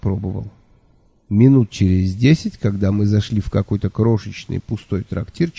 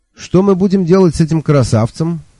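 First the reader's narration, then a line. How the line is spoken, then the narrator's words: Cheerful question. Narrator (Russian): весело спросил я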